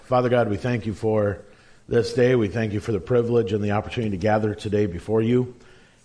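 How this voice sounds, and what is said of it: Rough, hoarse voice. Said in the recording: “my voice is a little on the rough side today... I was screaming at a football game last night”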